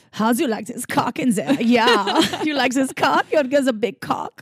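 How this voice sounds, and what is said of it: Put-on German accent. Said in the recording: “do it in German accent.”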